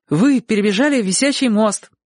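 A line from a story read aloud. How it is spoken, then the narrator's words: Joyful relieved exclamation. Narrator (Russian): радостно воскликнул Чик, чувствуя, что вопрос о курятине отсечен навсегда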